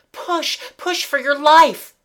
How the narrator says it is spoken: he cried

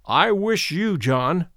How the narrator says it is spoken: said my uncle

